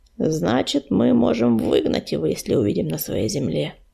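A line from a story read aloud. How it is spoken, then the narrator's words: Calm clarification. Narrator (Russian): спокойно уточнил Буран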